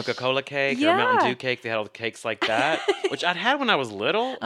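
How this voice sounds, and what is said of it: Regional accent coming through. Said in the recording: “That's my accent's coming back”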